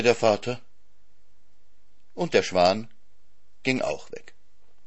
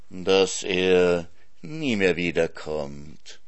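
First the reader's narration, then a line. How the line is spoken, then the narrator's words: Fox purring. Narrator (German): schnurrte der Fuchs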